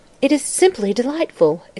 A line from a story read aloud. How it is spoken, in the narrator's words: exclaimed Irene